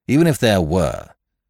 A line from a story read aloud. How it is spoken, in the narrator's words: said the inspector impatiently